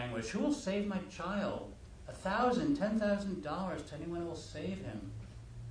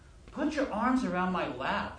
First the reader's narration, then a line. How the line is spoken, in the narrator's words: Dick cried